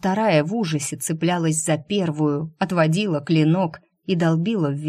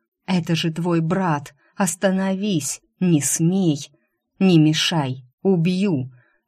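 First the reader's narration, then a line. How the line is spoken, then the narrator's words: Savage growl. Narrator (Russian): Рыкнуло то, что было убийцей по имени Стриж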